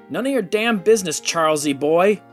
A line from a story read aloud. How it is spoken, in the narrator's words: Sherman yelled